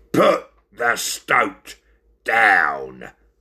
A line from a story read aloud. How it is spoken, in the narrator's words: growled the fierce bulldog